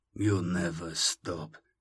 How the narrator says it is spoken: muttered

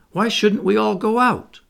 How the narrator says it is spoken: cried John

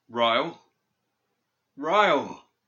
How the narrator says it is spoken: He called desperately into the depths of that dark night

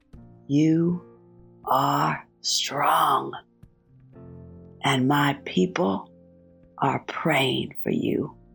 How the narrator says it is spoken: small, elderly maintenance woman whispered

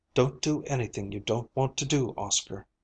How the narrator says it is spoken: she whispered

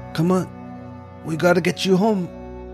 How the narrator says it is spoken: Billy whispered

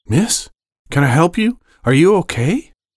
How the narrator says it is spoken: His voice was shaky and uncertain

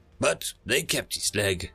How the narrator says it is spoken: he chuckled

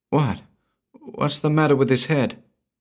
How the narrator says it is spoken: The girl faltered

